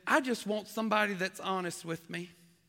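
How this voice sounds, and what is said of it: Put-on Southern American accent. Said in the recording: “That's a really southern accent there.”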